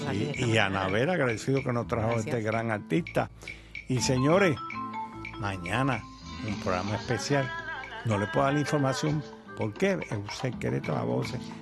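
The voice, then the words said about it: Hoarse voice. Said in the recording (Spanish): “yo estoy ronco”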